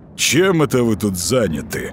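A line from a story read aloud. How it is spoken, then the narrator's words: Booming drone. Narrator (Russian): прогудел он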